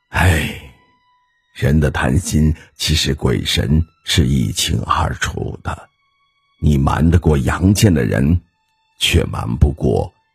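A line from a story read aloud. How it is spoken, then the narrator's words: Sighing old foreman. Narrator (Chinese): 老工长最后叹口气说道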